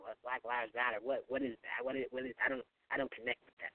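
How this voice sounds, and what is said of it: Poor imitation of a rapper's voice. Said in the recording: “my terrible Lil Wayne impression”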